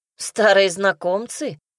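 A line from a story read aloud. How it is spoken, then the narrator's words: Wry snort. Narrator (Russian): хмыкнула я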